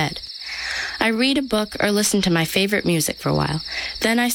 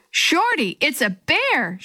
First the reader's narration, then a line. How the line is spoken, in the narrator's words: she yelled